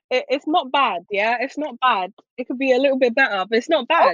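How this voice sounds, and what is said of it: Put-on British accent. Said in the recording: “she kind of promised us a little British accent... let's hear your British accent”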